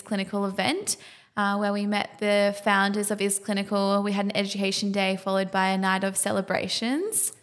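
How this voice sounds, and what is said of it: Tired-sounding voice. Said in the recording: “feeling a little bit rough around the edges ... if we sound a little bit tired, we definitely are”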